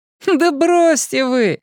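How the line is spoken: Boy's hearty laughter. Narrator (Russian): Мальчишка рассмеялся весело и от души

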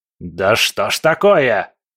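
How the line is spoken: Roar. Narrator (Russian): взревел Легба

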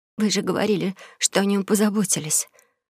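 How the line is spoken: Shocked, dejected whisper. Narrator (Russian): подавленная увиденным прошептала ошарашенная Элья

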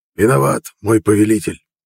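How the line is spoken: Hoarse voice. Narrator (Russian): ответил хриплый

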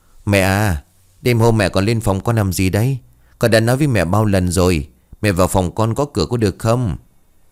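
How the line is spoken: Sighing, weary. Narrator (Vietnamese): cô thở dài rồi bảo

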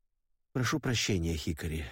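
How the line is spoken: Sighing. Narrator (Russian): вздохнул я

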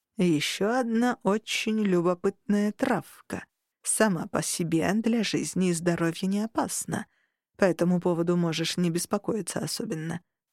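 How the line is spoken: Worried elf drawl. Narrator (Russian): протянул эльф, бросив встревоженный взгляд

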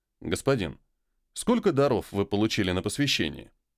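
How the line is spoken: Calm announcement after a snort. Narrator (Russian): Я хмыкнул, спокойно объявил

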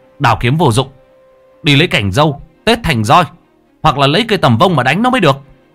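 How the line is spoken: Shouting. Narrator (Vietnamese): Lễ quát lên

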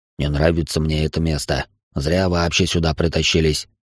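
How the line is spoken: Grumbling. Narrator (Russian): проворчал Огги

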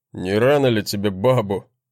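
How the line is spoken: Mocking grunt. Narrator (Russian): хмыкнул брат

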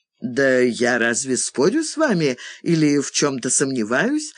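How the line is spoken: Laughing woman. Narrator (Russian): засмеялась Фиона

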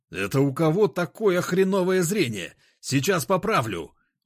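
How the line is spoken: Roared. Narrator (Russian): взревел я

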